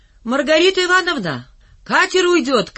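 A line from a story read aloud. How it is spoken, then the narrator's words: Shouting. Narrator (Russian): крикнул Валька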